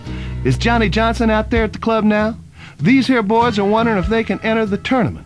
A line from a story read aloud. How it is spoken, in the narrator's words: she yelled